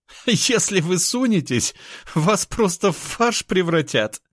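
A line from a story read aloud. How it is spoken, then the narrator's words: Laughing woman. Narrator (Russian): хохотала она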